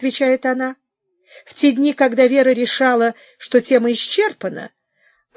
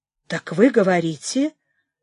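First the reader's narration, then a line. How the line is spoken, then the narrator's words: Barely above a whisper. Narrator (Russian): начала я, не то чтоб шепотом, но не намного громче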